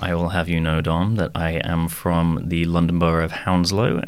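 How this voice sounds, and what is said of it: British speaker with slight American twang. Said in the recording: “you sound a bit American, don't you? ... the twang never goes ... my T's are still sharp, pointed things, but something about the ineffable twang”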